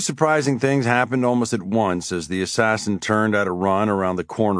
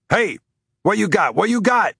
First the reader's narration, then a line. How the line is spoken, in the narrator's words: yelled a jacked cop